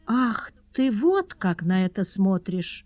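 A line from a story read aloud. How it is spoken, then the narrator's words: Timid, thoughtful drawl. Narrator (Russian): задумчиво протянула оробевшая госпожа Перманедер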